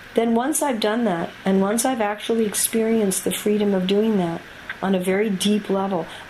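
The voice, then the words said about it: Soft, quiet speaking voice. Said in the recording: “Thank you for tolerating my speaking in a soft voice.”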